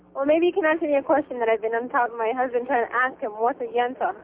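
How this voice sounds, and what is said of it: Speaks with a noticeable accent. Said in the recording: “that accent”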